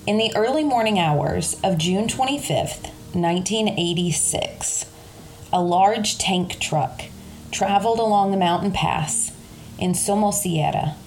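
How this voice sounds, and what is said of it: Kentucky accent. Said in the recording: “my Kentucky accent”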